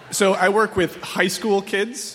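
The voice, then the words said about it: Borat impression. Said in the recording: “it was a Borat impression, and that's not your regular voice ... he's doing a Borat impression”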